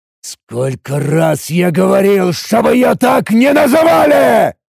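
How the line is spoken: Roaring. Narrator (Russian): взревел я

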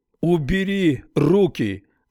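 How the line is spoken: Shouting. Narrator (Russian): закричал Харман

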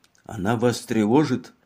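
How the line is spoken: Whispered in ear. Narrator (Russian): прошептал Лапуэн на ухо Мегре

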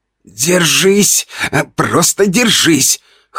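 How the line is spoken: Hoarse strained muttering to self. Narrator (Russian): хрипел я сам себе

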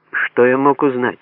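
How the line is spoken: Wry snort. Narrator (Russian): хмыкнул я

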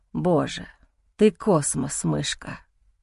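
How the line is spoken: Hoarse breathy. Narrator (Russian): Выдыхаю охрипшие интонации

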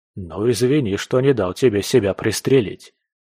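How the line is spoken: Wry snort. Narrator (Russian): хмыкнул

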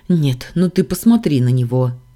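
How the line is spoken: Exclamation. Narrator (Russian): воскликнула

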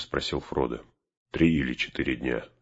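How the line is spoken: Plain. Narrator (Russian): сказал маг

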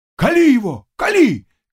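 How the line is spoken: Cossacks shouting together. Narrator (Russian): кричали казаки

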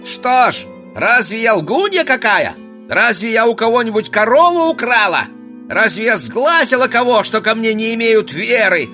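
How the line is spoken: Peasant woman shouting. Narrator (Russian): кричала баба

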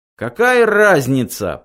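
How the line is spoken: Shouting. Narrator (Russian): прокричал Артур

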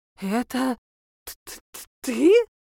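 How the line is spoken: Stammering. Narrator (Russian): стала заикаться гадалка

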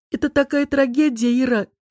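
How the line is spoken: Sobbing over the phone. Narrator (Russian): всхлипывает в трубку подруга

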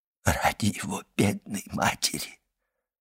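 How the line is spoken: Whispered. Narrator (Russian): прошептал приезжий из Лукки

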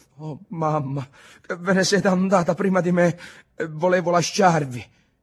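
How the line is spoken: Sobbing. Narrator (Italian): Ntoni singhiozzando

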